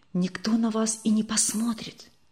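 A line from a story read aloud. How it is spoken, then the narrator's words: Whispered reply. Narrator (Russian): все так же шепотом ответил незнакомый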